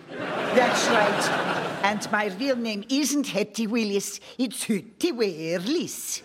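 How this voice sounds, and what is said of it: Put-on Danish accent. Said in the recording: “my authentic Danish accent”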